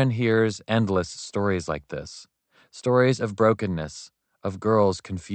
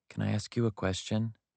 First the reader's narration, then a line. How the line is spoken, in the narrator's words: she mumbled